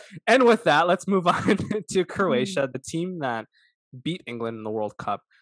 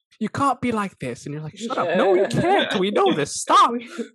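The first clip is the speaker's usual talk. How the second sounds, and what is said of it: Poorly done put-on Irish accent. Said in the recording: “As I botch my Irish accent.”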